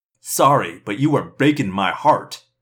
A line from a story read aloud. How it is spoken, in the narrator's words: a human voice sneered